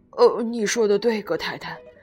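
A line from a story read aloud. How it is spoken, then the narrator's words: Sighing. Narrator (Chinese): 格瑞林先生叹了口气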